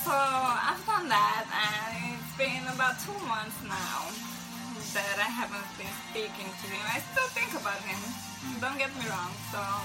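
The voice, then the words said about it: Strong accent. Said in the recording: “I have a little bit of an accent. Actually, a lot of it”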